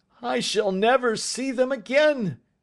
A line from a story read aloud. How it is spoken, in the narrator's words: he cried